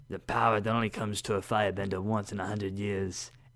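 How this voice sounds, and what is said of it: Attempted Iroh voice impression. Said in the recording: “You're working on that Iroh accent, aren't you? ... I was trying.”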